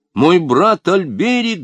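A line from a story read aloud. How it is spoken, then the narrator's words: Shouting. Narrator (Russian): закричал Людовик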